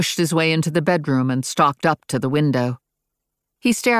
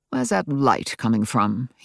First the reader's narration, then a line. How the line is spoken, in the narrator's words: he muttered, and not to me